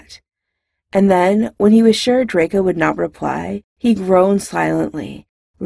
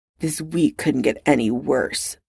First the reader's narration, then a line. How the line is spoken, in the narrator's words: Potter muttered eventually